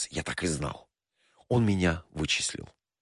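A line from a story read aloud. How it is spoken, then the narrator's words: Quiet, shaken performer. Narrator (Russian): Артист побледнел и тихо произнес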